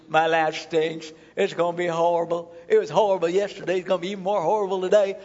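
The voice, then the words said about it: Put-on southern accent. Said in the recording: “I don't know why I'm speaking in a southern accent, but I am”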